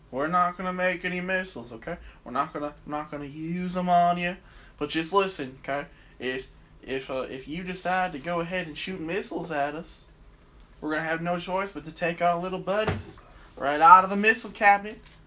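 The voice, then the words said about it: Put-on Virginia school principal accent. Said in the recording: “you sound like a like Virginia principal talking to a student about like not drawing dicks on school property ... that was the only accent I could think of”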